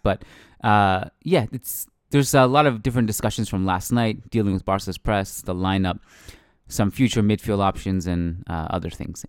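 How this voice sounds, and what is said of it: Hoarse, worn-out voice. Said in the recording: “my voice is pretty much shot up at this point too from the live podcast”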